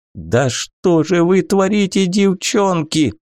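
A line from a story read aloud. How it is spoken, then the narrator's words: Near howl. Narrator (Russian): Гент чуть не взвыл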